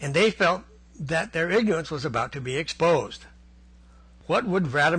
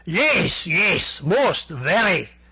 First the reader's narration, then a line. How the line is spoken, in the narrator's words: shouted Vladimir Brusiloff enthusiastically